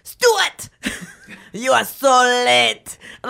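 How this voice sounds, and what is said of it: Made-up mixed Russian-Asian angry accent. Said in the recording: “like a French or like this sexy, weird, you know, accent ... It starts as kind of ... Russian ... almost Asian, too ... It's like Asian and Russian and like angry ... It's not a real accent”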